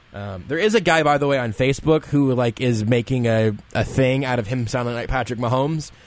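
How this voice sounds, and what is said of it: Low-register voice, painful to talk. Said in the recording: “my radio voice has gotten a little bit better because it just hurts so much to talk that I have to kind of go to a lower register”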